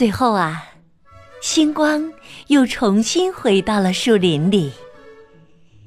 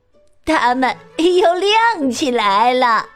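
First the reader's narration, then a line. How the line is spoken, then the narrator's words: Grinning. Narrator (Chinese): 鳄鱼咧开嘴笑着说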